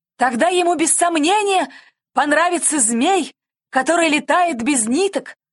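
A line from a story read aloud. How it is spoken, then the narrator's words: Pilot exclaiming. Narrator (Russian): воскликнул сидящий пилот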